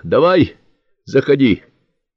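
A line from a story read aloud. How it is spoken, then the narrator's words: General shouting. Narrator (Russian): крикнул генерал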